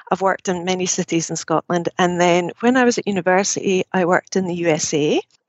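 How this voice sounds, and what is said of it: Scottish accent. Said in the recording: “starting in Scotland, you might be able to tell from my accent”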